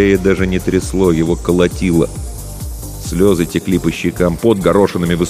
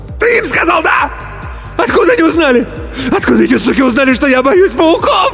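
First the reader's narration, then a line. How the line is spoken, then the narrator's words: Shrieked, choking. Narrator (Russian): Взвизгнул Иван и захлебнулся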